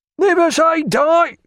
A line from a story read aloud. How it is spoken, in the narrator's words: cried the captain of his gun